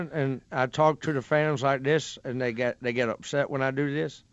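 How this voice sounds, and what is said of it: Put-on Southern accent, lower pitch. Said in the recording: “his Dallas Cowboy fan impression ... my Southern accent ... that almost has a little bit of a of a lower pitch”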